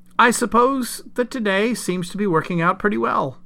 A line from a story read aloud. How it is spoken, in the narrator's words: Keith said brightly